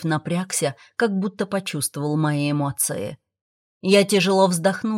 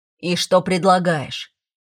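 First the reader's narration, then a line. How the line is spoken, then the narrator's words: Grumbled. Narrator (Russian): пробурчал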